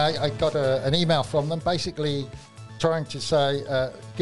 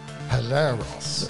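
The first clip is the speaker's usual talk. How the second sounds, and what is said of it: Deep, formal telephone voice. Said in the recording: “his deep telephone voice”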